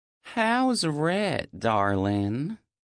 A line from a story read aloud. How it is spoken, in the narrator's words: Mom asks absently, her southern drawl thicker the drunker she gets